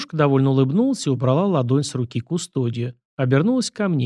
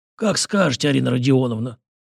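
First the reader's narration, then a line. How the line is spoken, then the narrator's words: Hoarse rasp. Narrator (Russian): прохрипел он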